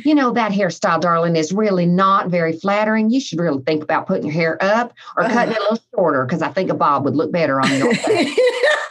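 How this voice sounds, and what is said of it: Put-on Southern accent. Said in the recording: “That was a really great Southern accent”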